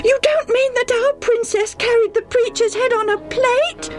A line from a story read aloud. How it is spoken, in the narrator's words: Debbie almost screamed